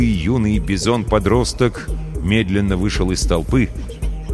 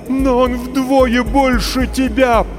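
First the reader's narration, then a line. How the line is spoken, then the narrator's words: Terrified mother's moan. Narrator (Russian): простонала мать, почти обезумев от ужаса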